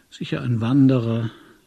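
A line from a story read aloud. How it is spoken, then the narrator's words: Slurred. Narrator (German): lallte ich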